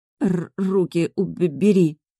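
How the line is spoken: Strained hoarse croak. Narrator (Russian): прохрипела я, таки поборов собственное тело

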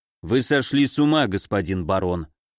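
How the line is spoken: Cold reply. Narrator (Russian): Дьявол холодно ответил

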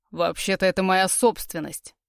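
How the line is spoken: Growled, man. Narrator (Russian): прорычал мужчина

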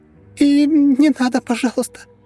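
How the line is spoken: Frightened squeak, girl. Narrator (Russian): испуганно пискнула девушка

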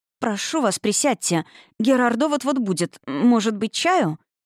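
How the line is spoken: Slight stutter. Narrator (Russian): бедняжка начала слегка заикаться

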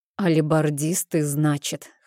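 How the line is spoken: Wry snort. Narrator (Russian): хмыкнул Зорн

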